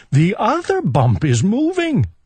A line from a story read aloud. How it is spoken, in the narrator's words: cried Owl